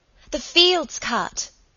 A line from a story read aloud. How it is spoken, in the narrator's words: Helen cried excitedly